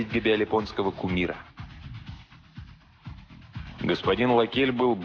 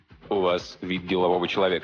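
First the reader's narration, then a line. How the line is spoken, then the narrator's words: Plain. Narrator (Russian): сказал он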